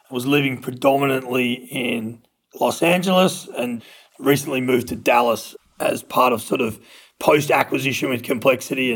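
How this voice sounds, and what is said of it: Australian accent. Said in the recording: “I'm Australian, which you can probably tell from my accent”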